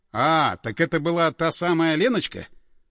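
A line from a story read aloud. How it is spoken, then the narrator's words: Sighed. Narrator (Russian): вздохнул Андреев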